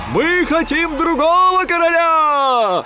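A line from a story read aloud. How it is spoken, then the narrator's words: Soldiers shouting. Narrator (Russian): кричали солдаты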